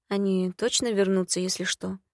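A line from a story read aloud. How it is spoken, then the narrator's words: Uncertain question. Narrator (Russian): неуверенно спросила Нагулита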